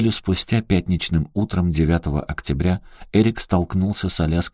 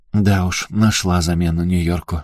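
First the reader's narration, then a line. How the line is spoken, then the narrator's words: Sad smile. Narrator (Russian): грустно улыбнулась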